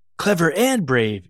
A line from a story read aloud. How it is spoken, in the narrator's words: yelled Paige